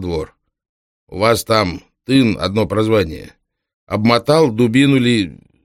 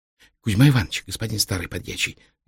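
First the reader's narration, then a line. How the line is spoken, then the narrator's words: Whisper. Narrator (Russian): зашептал парень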